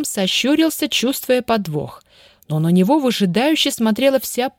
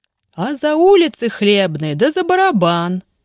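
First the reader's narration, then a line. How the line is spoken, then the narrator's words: Good-natured laughing. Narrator (Russian): добродушно смеясь, пояснил Кержак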